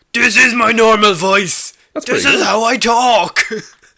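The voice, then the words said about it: Star-Lord voice impersonating Thor. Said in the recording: “That's pretty good Star-Lord impersonating Thor.”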